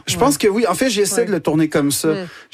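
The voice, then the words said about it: Québécois French accent. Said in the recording (French): “l'accent québécois ... avec cet accent”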